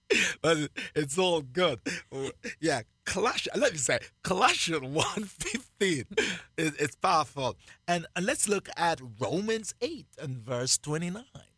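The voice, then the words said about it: Jamaican accent. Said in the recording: “I still have my Jamaican accent ... I have not lost my Jamaican accent.”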